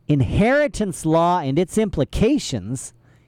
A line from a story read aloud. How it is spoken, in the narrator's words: said sharply